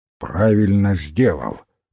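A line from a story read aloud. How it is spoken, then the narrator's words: Grumbling. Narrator (Russian): проворчал мистер Гикари Крейг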